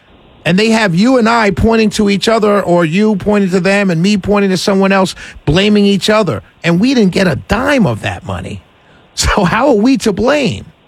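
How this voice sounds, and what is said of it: Raised, passionate loud voice. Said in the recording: “I just get passionate, man. I apologize if I raised my voice.”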